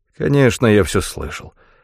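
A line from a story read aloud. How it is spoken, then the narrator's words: Mumbled. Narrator (Russian): пробормотал Майкл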